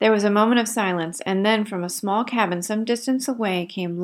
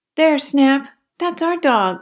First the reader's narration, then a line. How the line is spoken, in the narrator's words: cried Nan joyfully